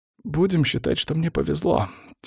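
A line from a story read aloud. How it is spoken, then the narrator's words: Quiet reply. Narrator (Russian): тихо ответил Вяземский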